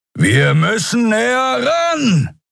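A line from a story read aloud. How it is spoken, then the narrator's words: Shouting over wind. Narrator (German): rief Keru über den heulenden Fahrtwind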